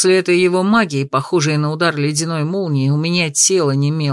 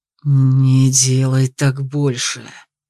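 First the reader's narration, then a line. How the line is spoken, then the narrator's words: Hiss through numb jaw. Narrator (Russian): прошипел я, едва двигая онемевшей челюстью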